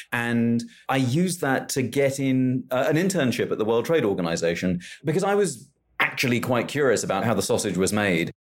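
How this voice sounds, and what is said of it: Posh British accent. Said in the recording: “as you can hear from my voice, can pull off quite a posh accent”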